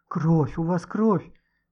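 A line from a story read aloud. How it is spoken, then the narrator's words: Frightened girl whispering. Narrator (Russian): побледневшими губами шептала девочка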